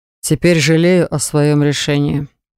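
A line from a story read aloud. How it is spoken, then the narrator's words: Muttered through clenched teeth. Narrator (Russian): процедил он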